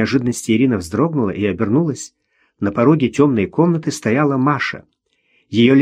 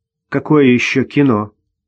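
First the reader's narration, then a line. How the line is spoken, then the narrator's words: Stern. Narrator (Russian): Ирина постаралась, чтобы голос звучал строго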